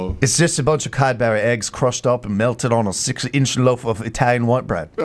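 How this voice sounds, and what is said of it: Usual voice. Nothing is said of it.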